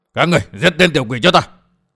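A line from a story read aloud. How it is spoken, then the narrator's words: Shouted in terror. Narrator (Vietnamese): kinh hãi quát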